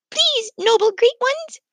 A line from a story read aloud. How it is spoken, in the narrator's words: squeaked the mice